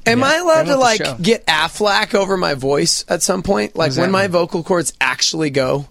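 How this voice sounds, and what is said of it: Strained, hoarse, failing voice. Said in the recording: “I'm losing my voice, and I think it's because we talk ... 4 hours a day ... Well, you yell.”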